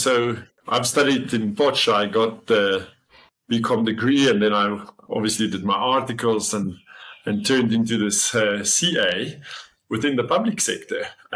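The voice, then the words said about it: Rural South African accent. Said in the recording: “Platteland history ... you can hear it in my accent already”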